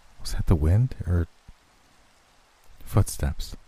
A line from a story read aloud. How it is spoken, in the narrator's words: Liz asked, her voice tinged with concern